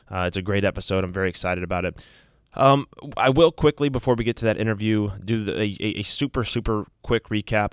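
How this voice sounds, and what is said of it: Sick, slightly rough voice. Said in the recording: “as you can probably tell from my voice, I'm a little bit under the weather... one of those chest things... my voice is not in tip-top shape”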